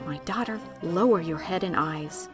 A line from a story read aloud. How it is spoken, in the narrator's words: I heard a woman's voice whispering